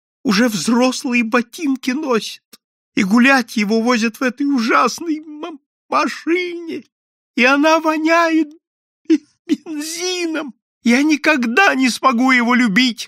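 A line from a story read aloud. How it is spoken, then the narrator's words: Sobbing. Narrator (Russian): рыдала она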